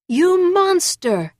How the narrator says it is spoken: he screamed

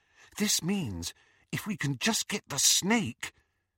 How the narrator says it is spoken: whispered Hermione

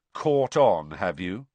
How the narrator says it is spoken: said Harry coldly

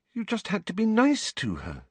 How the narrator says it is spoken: said Hermione, looking up anxiously

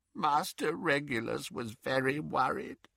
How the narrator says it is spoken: croaked Creature

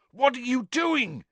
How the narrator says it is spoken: yelled Cedric's voice

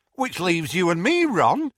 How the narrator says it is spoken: said Tonks brightly

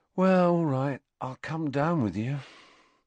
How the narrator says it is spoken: sighed Ron

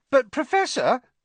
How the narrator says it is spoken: piped up Parvati Patil

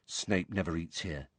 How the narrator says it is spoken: Ron told Harry quietly

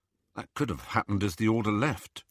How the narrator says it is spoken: Ron murmured back

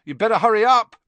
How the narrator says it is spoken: Ron called loudly after her

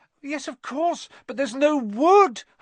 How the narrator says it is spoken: Hermione cried, wringing her hands

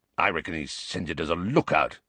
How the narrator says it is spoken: growled Moody

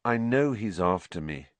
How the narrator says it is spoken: said Harry wearily

